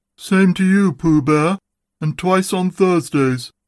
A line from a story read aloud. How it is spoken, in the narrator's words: said Eeyore gloomily